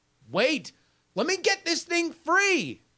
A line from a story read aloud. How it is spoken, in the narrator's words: I shout